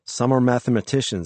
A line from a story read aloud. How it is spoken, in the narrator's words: she said